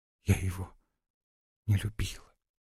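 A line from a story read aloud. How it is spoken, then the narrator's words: Whisper. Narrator (Russian): прошептала в ответ Лариса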